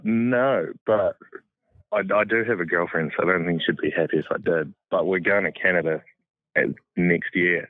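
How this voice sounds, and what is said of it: Distinctive non-American accent. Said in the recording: “God, that's a cool accent.”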